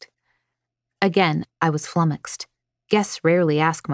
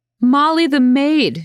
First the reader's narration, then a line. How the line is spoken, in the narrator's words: she roared